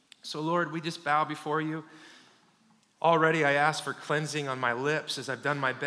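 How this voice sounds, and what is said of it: Usual voice. Nothing is said of it.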